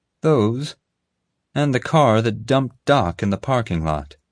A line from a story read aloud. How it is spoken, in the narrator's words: Molly replied